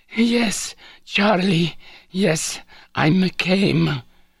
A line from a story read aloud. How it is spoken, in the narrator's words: she would breathlessly gasp